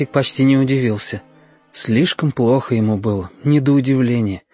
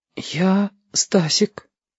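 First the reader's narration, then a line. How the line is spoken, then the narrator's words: Whisper. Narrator (Russian): Сказал шепотом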